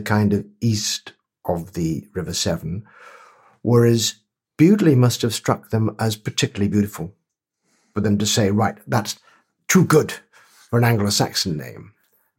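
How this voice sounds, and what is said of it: Welsh accent. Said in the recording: “your accent, which is clearly not Worcestershire but Welsh”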